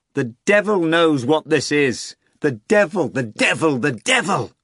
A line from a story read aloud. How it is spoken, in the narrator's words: shouted